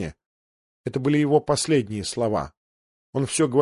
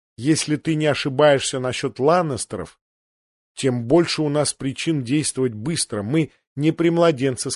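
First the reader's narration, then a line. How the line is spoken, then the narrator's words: Plain. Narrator (Russian): сказала Лиза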